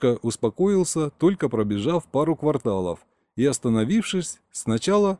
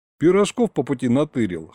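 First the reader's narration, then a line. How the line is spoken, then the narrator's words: Wry snort. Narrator (Russian): хмыкнул я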